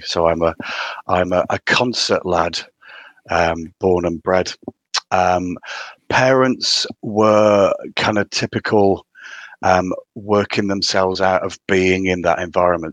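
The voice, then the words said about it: Strong County Durham accent. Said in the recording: “You can tell from my really strong accent that I'm from County Durham originally”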